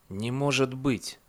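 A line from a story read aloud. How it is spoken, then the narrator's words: Whispered. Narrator (Russian): прошептал он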